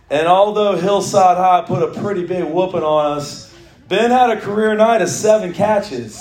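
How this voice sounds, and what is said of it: Slightly raspy voice. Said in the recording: “my voice is still a little raspy,”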